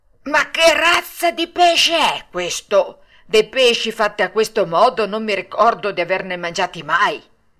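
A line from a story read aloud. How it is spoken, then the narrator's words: Almost frightened shout. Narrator (Italian): gridando quasi impaurito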